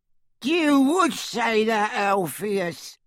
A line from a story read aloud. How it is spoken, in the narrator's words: cackled Auntie Muriel